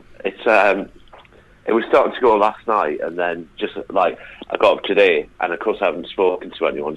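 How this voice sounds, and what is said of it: Hoarse, fading voice. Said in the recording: “Are you poorly? ... I'm just losing my voice.”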